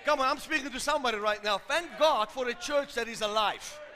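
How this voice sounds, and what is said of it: Loud speaking voice. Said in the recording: “when you hear me speaking loud, I'm not shouting, I'm just loud”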